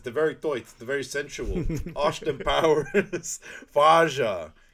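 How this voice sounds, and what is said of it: Dutch accent impression of Goldmember. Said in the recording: “I have a Dutch accent”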